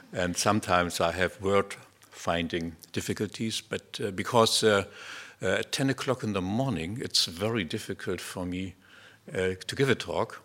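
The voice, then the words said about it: German-accented English. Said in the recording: “English is not my first language. You hear that already. I have a wonderful German accent, I've been told.”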